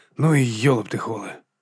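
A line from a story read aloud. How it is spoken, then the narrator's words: Whispered self-reproach. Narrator (Ukrainian): лаяв себе пошепки в темряві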